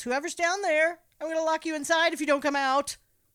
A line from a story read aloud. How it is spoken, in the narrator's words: She yells